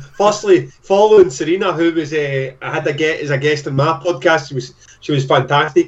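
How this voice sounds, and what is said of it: Thick Glaswegian Scottish accent. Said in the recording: “our first Scottish gent ... I've got a thick Glaswegian accent.”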